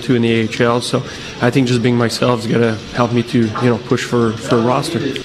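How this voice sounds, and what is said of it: French accent. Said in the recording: “Do I sense a French accent there?”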